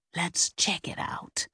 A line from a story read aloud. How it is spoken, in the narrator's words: Helen whispered